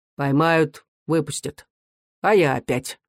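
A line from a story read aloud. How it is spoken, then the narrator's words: Calm reply. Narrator (Russian): Рыбин спокойно ответил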